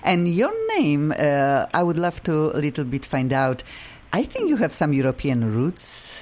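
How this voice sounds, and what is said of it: Polish-accented English. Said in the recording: “I have funky accent. I am originally from Poland.”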